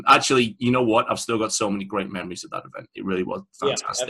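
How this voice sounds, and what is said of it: English accent. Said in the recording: “you're English. Can't let my wife hear your accent.”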